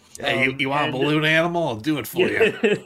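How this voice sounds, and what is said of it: Careless New Jersey accent. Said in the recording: “the sort of like Jersey I don't care accent”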